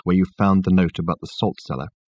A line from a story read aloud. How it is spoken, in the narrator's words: he asked Richard in a low voice